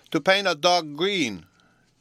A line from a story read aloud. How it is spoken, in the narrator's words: cried Bruno